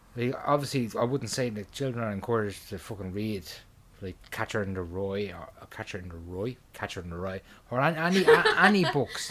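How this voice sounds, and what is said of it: Dublin Irish accent. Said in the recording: “Your Dublin accent comes out.”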